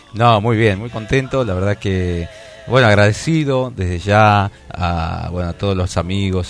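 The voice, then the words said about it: Tired, deep announcer-like voice. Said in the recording (Spanish): “esta voz de Desvelado, locutor... Esta voz de locutor que te queda post-festival”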